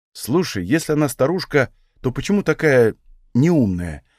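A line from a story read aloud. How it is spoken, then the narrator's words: Plain. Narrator (Russian): спросил я Таниса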